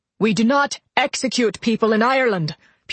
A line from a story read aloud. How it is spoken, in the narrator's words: Pearson said, his voice rising